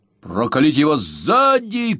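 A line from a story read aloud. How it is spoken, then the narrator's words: Shout. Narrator (Russian): крикнул безобразный джентльмен своему спутнику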